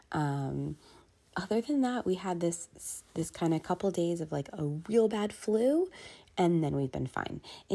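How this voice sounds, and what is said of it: Slightly congested voice. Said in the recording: “you can hear in my voice, there's still a little congestion, but nothing compared to what it was”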